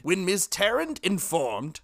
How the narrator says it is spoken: cried Jackson

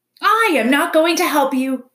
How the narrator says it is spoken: screeched the owl from the very top of the tree

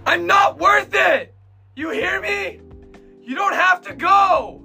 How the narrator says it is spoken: suddenly, just Eren screams out to them

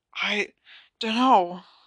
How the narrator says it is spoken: Harry gasped

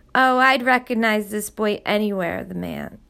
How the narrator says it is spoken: the president said, chuckling

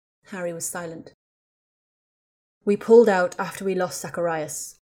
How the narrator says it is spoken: Ron said in a dull tone

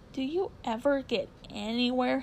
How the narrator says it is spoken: he asked with a mocking laugh

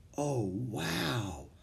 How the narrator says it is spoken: whispered Annie

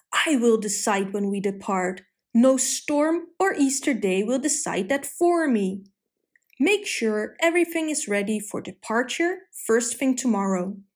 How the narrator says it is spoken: The captain yelled

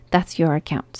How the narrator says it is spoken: said Joe

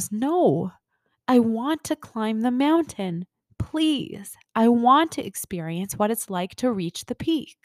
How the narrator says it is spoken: The soul exclaims

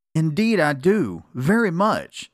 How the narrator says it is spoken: exclaimed Beckie

